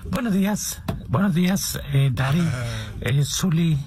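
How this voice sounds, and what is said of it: Radio announcer voice. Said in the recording (Spanish): “con mi voz de locutor”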